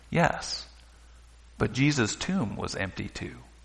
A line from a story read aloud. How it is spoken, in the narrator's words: said softly